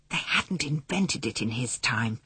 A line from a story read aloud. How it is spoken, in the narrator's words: he whispered